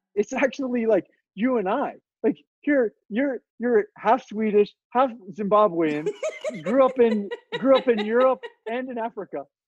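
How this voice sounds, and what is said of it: Southern American accent. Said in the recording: “I am obviously by my accent a like Southern American”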